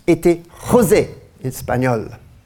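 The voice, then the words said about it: Put-on Spanish accent. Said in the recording (French): “Ça passe, mon accent espagnol.”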